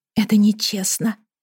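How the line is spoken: Whisper. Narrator (Russian): прошептала я

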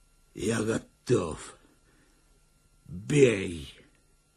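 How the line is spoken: Hoarse wheeze, spitting blood. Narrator (Russian): сплевывая красную слюну, прохрипел

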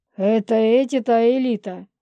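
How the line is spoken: Laughing werewolf. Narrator (Russian): рассмеялся оборотень

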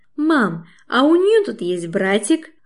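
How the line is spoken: Joyful. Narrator (Russian): Радостно

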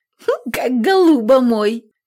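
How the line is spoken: Giggle cut short. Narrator (Russian): хихикнула Лукаша и тут же оборвала смех

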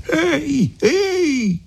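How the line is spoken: Shouting. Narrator (Italian): gridò

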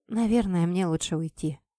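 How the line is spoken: Quiet. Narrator (Russian): тихо сказала я

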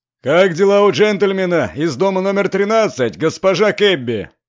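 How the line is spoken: Loud, as if to deaf. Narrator (Russian): поинтересовался страж порядка, причем проговорил он это громким голосом, каким обычно разговаривают с глухими людьми

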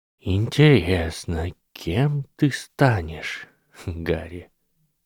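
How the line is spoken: Soft, wondering, regretful old man. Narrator (Russian): мягко сказал старый волшебник, как будто удивляясь и даже сожалея

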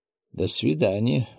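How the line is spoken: Surprised muttering. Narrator (Russian): удивленно пробормотал Петр Андреевич

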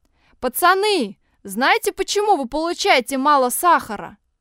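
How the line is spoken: Loud announcement. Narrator (Russian): тот самый защитник громко объявил

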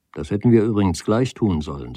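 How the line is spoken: Plain. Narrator (German): sagte er

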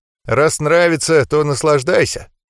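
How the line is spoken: Snorting. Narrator (Russian): хмыкнул я

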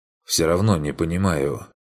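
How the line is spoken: Sighed. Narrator (Russian): вздохнул он

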